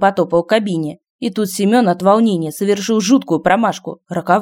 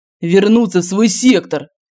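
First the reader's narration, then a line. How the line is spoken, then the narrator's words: Growling. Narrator (Russian): прорычал он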